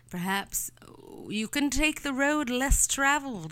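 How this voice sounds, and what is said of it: Speaks in a put-on accent. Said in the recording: “Why am I still doing that accent?”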